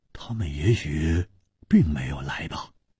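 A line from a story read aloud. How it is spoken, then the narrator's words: Low, deep voice. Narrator (Chinese): 黄鲁直沉声说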